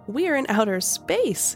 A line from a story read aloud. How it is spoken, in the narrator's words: gasped Emma